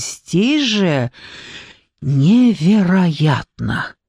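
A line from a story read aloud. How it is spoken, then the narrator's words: Breathless exhale. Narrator (Russian): выдохнула я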